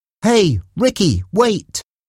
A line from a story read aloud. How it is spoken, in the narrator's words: he shouted